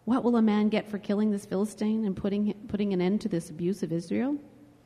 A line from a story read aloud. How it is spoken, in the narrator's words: he asked them